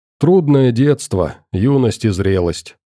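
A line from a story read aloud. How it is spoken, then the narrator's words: Sorrowful sigh. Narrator (Russian): сокрушенно вздохнул доктор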